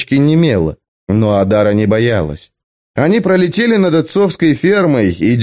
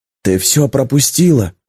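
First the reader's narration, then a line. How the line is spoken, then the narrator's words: Whisper. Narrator (Russian): прошептал он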